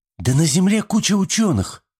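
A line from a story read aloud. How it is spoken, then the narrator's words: Exclaimed. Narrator (Russian): воскликнула Рашми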